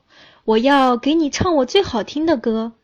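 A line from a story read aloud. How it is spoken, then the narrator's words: Loud. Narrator (Chinese): 它大声说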